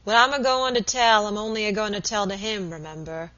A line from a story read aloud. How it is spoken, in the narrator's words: growled Mr